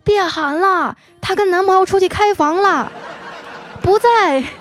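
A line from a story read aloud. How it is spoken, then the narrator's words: Shouting. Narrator (Chinese): 一个学姐冲他喊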